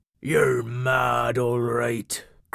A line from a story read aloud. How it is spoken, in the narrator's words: grumbled Cobby